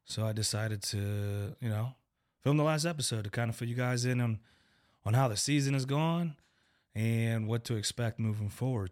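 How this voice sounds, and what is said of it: Weakened voice from sinus infection. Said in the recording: “I apologize for my voice. Apparently, I'm battling some sort of sinus infection that completely wipes away your voice. It has since come back.”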